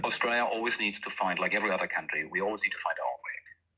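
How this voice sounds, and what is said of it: Heavy German accent. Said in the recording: “having a heavy accent from that country ... what can we learn from the German example”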